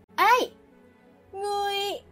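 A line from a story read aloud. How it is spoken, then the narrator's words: Sudden loud shout. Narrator (Vietnamese): Phong Từ đột nhiên hét lớn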